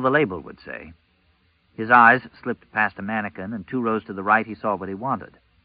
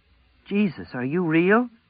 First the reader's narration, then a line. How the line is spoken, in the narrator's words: she asked in a trembling voice